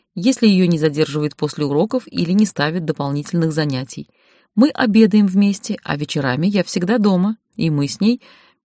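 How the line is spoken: Calm. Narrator (Russian): сказала спокойно

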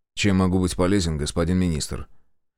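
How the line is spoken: Calm, emotionless. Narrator (Russian): говорит спокойно, абсолютно без всяких эмоций

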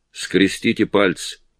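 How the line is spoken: Uncertain. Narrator (Russian): Кэрри неуверенно заговорил

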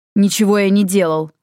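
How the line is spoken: Snapping retort. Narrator (Russian): огрызнулся Йен

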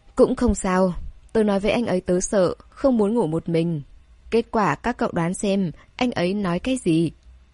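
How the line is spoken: Sighing. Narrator (Vietnamese): Tôn Điềm Điềm thở dài nói

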